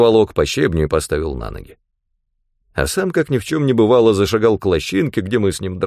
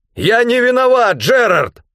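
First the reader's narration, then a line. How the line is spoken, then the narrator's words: Hurried shout. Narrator (Russian): Только и успел выкрикнуть я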